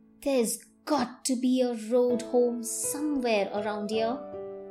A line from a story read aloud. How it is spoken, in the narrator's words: Megan muttered